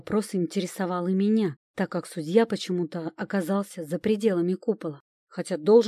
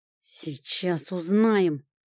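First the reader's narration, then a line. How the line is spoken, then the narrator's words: Growled. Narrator (Russian): рыкнул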